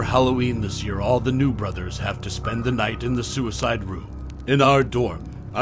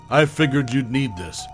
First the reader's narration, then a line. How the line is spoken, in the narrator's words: she laughed